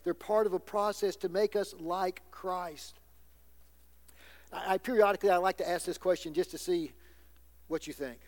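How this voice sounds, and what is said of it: Southern American accent. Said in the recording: “How many of you think that I speak with an accent? ... I've been away from the South for 41 years now ... you can't take the country out of the boy ... I'm proud of my Southern heritage”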